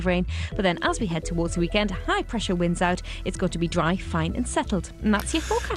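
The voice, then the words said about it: Geordie accent. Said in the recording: “I'm a Geordie ... I could have sworn that was a Scotch accent”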